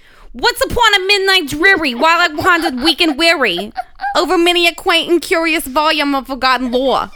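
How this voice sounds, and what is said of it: Put-on Long Island accent. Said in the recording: “I love a Long Island accent. ... I was just wondering if I could do part of it, the Raven, in a Long Island.”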